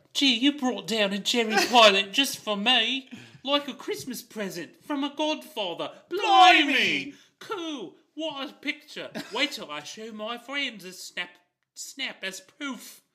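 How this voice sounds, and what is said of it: Poor put-on English child accent. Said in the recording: “That was a bad child English accent. ... It was a little bit over the map”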